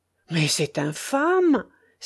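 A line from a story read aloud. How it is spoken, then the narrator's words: Furious exclamation. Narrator (French): s'écria le baron hors de lui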